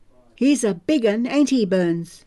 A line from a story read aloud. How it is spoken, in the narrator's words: One of the woodcutters cackled